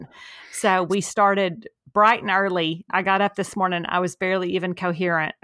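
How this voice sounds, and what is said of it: Scratchy voice. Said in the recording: “If my voice sounds a little scratchy, it's because I have inhaled approximately 4,000 pounds of sawdust this morning.”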